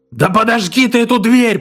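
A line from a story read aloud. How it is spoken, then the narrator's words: Sudden shrill scream, voice breaking. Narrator (Russian): пронзительно завопил вдруг Каскер, и голос его сорвался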